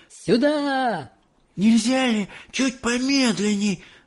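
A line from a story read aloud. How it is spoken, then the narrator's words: Breathless moan. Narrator (Russian): Задыхаясь, простонала она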